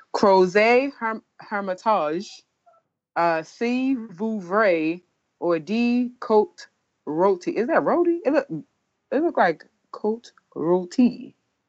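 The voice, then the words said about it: Fake accent on wine names. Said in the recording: “I'm pronouncing it with my fake accent.”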